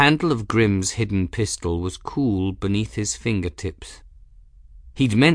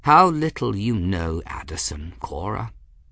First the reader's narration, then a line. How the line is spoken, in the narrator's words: Master Ferris said quietly